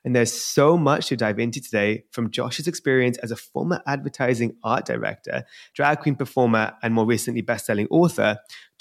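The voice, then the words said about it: British London accent. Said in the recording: “interviewed by someone with a British accent ... I'll up my Britishness ... my London accent”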